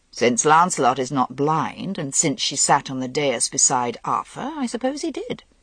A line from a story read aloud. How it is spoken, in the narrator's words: Morgaine said dryly